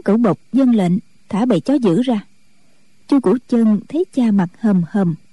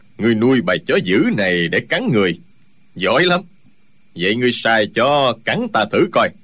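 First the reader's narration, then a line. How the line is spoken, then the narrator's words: Sneering. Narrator (Vietnamese): Chu Trường Linh cười khẩy nói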